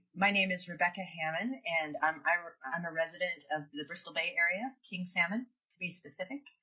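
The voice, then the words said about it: Voice affected by a cold. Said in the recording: “sorry for my voice. I have a little bit of a cold.”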